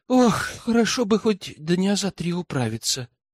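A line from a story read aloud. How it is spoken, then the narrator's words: Tired sigh. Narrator (Russian): устало вздохнула Тиана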